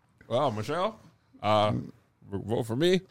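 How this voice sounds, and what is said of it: Imitates another person's voice. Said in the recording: “I do a pretty good Barack, too”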